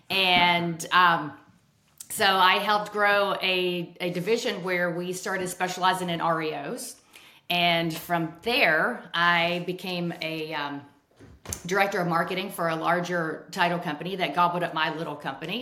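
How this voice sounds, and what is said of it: Southern American accent. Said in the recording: “Nashville, Tennessee. So the accent's real.”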